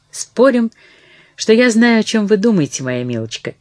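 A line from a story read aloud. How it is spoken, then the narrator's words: Cheerful. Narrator (Russian): весело произнесла она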